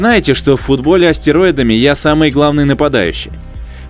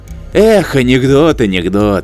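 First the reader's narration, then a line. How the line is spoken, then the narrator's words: Hologram sighing. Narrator (Russian): вздохнул голограмм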